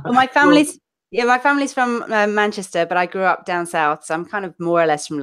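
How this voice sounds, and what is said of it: London-ish English accent. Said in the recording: “it's much more of a London accent ... because my family's from Manchester, I say last and past and bath ... I've got this weird smooshed up accent”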